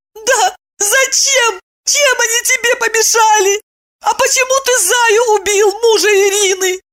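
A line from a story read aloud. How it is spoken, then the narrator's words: Sobbing question. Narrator (Russian): Всхлипывая, спросила она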